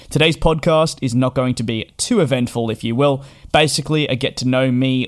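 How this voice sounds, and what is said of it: Australian accent. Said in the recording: “I am Australian. Whether or not you can tell with my accent”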